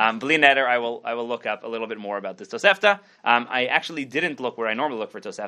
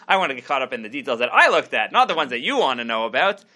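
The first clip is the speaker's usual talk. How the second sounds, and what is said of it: Sarcastic tone. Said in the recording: “can hear the sarcasm in my voice.”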